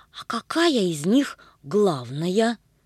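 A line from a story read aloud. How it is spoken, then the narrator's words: Plain. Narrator (Russian): спросила Агата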